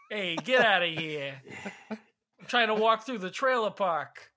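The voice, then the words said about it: Put-on New York accent. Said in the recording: “I almost said that in a New York accent ... what made you almost say that in a New York accent?”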